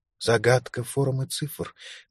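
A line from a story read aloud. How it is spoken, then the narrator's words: Whispered reply. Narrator (Russian): также шепотом отозвалась Лукреция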